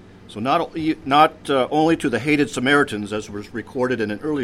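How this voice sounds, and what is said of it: Usual voice. Nothing is said of it.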